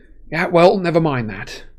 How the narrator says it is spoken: said Harry bitterly

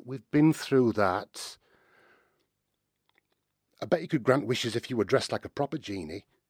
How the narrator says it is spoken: said Aladdin

